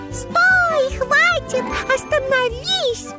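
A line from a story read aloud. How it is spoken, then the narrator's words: Shout. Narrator (Russian): закричала она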